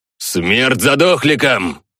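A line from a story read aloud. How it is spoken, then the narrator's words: Viking's yell. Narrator (Russian): заорал викинг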